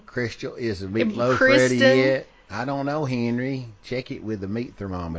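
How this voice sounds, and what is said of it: Put-on Southern accent. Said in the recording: “You got to say it like we say it down south... Making fun of our cousins.”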